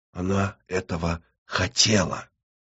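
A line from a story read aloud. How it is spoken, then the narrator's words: Whispered. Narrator (Russian): Наина прошептала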